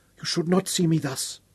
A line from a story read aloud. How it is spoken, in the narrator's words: whispered hoarsely